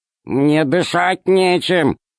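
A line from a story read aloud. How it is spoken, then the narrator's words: Grumbling. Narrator (Russian): проворчал Р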